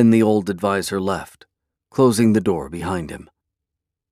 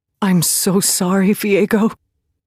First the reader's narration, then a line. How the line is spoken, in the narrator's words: Callista breathed